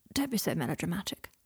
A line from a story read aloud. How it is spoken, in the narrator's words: murmured Draco